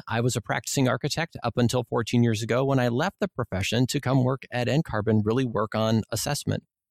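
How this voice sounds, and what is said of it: Minnesota accent with long O's. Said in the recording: “you maybe can tell from my accent, I'm from Minnesota. So I have some long O's every now and then.”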